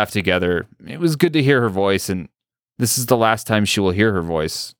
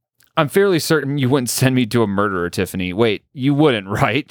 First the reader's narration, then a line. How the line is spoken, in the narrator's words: laughs